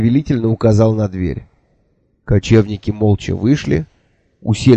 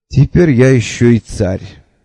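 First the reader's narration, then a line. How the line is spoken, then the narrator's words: Grim blurt. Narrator (Russian): мрачно выпалил я с порога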